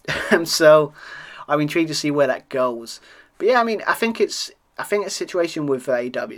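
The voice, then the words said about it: British accent. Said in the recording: “being a Brit, as you can hear on my accent”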